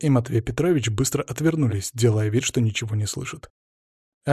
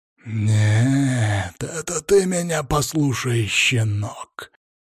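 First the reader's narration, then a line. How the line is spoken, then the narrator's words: Low growl. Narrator (Russian): глухо прорычал граф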